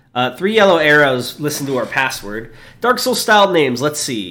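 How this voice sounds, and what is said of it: Usual voice. Nothing is said of it.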